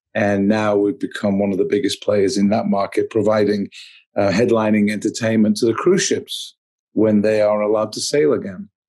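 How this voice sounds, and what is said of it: Manchester English accent. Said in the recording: “I'm from Manchester in England originally, but I've actually spent about 35 years of my life in the US, but still hold on to the accent.”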